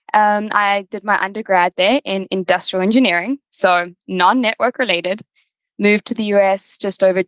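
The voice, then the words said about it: South African accent. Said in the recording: “I was born and raised in South Africa, so you know, for our listeners, the accent might be a little bit unfamiliar”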